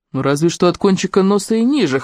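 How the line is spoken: Wry snort. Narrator (Russian): хмыкнул Де Пейн

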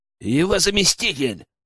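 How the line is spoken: Growled. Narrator (Russian): рыкнул Генка

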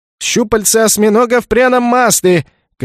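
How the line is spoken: Vendor shouting. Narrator (Russian): кричал разносчик

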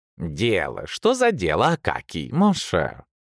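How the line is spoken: Purring. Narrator (Russian): промурлыкал Анцибол

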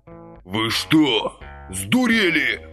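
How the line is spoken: Dazed hoarse croak. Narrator (Russian): Обеспамятив, прохрипел сержант

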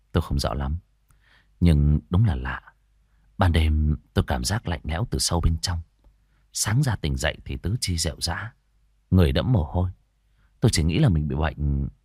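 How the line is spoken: Hesitant. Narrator (Vietnamese): Hùng ngập ngừng

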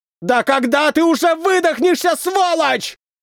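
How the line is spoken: Exhausted furious shout. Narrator (Russian): закричал мне воздушник спустя 2 часа

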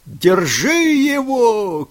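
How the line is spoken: Shouted from a boat. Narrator (Russian): крикнули из лодки

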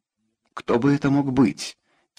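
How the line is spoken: Quiet question. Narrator (Russian): тихо спросил

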